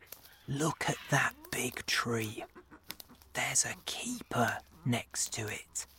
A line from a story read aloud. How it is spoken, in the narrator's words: he whispered softly